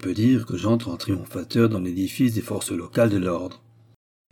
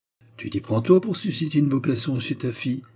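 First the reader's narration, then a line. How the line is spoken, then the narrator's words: Friend exclaims. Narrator (French): s'exclame mon copain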